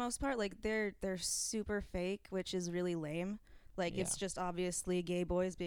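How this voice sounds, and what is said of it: Usual voice. Nothing is said of it.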